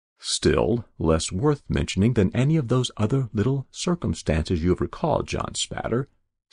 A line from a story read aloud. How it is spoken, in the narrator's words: said I